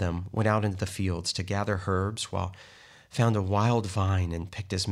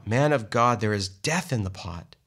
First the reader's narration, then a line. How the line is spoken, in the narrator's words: they cried out